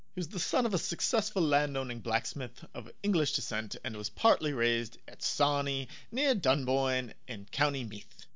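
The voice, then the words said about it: Put-on posh British accent. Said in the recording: “Really had to give that sentence the British accent, you know, to really sell how, like, hoity-toity it is... I mean, you nailed it, bro.”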